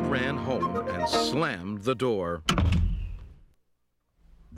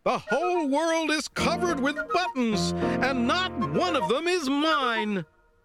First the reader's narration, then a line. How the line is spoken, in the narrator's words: He screamed